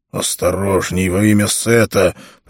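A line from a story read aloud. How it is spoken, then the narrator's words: Moaning. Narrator (Russian): простонал Ольмик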